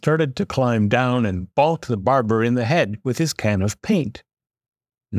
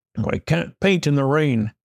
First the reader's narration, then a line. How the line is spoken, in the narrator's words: the painter grumbled